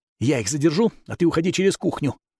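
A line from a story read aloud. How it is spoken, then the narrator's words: Whisper. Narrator (Russian): прошептал он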